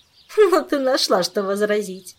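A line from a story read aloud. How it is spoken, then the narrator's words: Laughing. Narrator (Russian): рассмеялась Шерри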